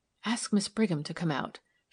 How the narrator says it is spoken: she said in a low voice

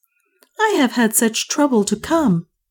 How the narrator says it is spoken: she cried

